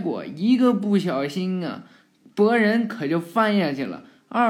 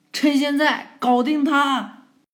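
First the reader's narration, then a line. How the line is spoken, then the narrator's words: Loud shout. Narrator (Chinese): 博人就大声喊呀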